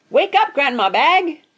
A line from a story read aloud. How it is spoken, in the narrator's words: shouted Daisy